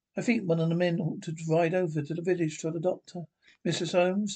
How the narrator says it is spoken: says Mrs

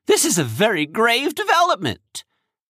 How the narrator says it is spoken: said urgently

